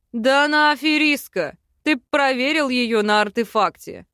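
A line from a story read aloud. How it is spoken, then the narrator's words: Chuckling, prince. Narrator (Russian): хохотнул один из принцев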